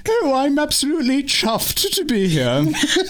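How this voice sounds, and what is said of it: Ridiculous put-on British accent. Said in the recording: “this ridiculous accent... Somewhere I've heard in the United Kingdom”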